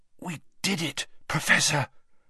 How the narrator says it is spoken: Harry whispered with difficulty

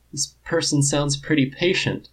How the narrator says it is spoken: Lardo says, a bit shakily

